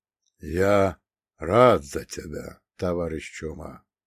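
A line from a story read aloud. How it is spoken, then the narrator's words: Said quietly. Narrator (Russian): произнес он тихо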